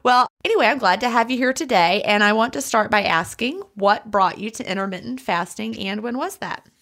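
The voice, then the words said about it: American Southern accent. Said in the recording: “I hear myself saying y'all ... such a cute accent ... The Southern accent is definitely a different one”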